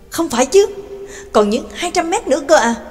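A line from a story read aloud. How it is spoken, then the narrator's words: Astonished exclamation. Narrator (Vietnamese): Nhạc Dương kinh ngạc kêu lên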